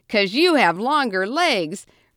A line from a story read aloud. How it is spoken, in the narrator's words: Rusty laughed